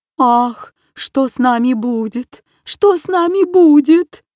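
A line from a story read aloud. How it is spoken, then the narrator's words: Moaning lament, stork. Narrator (Russian): стонала Аистиха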